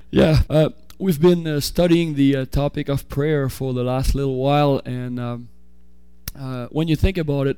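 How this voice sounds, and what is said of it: French accent, sore-throated voice. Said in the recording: “I have a cold ... a sore throat and a French accent”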